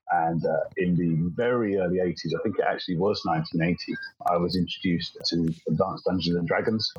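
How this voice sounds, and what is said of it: British accent. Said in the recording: “You can probably tell from the accent, so I'm from the UK.”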